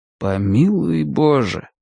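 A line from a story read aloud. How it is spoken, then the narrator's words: Muttered under breath. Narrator (Russian): пробормотал Мэтью себе под нос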